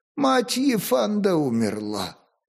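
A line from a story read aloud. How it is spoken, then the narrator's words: Sad. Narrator (Russian): печально повторил конюшенный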